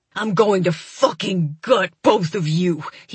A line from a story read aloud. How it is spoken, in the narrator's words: he growls